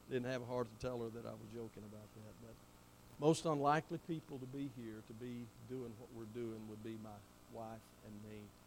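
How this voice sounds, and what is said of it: Southern US accent. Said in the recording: “I may be from the deep south ... I can still hear your southern accent.”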